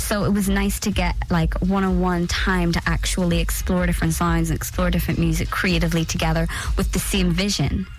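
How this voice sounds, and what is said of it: Speaks with a distinct accent. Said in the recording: “you've got such a good accent.”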